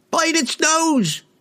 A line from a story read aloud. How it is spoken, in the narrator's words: yelled another